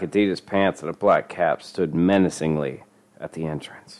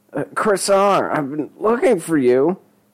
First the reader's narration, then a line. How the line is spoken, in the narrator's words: Denny said, a smile stretched nervously across his face